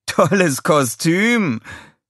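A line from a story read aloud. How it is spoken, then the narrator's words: Laughing call. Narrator (German): rief lachend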